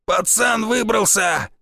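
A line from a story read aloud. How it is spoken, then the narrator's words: Bark from behind. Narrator (Russian): рявкнул кто-то позади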